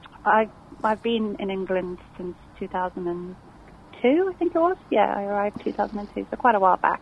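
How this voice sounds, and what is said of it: Mild South African accent. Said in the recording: “South African neighbours ... The same twang. ... it's not a heavy accent, but it, it's, it's just enough there to, to make you sound distinguished”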